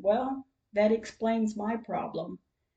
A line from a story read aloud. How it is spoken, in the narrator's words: chuckled a little bit and said